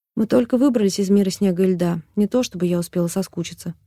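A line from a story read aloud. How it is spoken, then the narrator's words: Mother's sigh. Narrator (Russian): вздохнула мама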